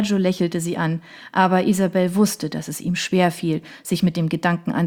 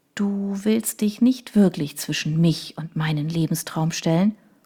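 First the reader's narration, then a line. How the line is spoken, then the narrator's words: Soft confiding question. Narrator (German): als wolle sie ein Geheimnis weitergeben und fragte sanft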